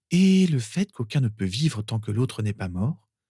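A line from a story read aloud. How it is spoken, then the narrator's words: Plain. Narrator (French): demanda Lily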